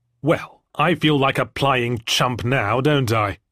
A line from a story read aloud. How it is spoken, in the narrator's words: I spat